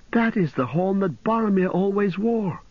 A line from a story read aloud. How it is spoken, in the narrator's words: cried Pippin